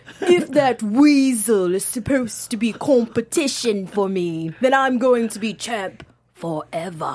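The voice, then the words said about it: Imitates another person's accented voice. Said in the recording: “I'm trying to do the accent ... worst impression ever ... You just did an impression of Neville doing his impression of Enzo”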